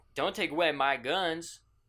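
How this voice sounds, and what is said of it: Put-on Southern American accent. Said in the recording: “Why'd you do a southern accent?”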